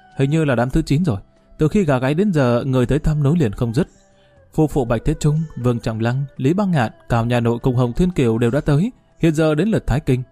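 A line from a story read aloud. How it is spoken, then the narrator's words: Giggling, after a pause. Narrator (Vietnamese): Bạch Tiền Dạ cười khúc khích, suy nghĩ một chút mới nói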